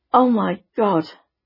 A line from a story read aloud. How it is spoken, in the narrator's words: exclaimed Sandra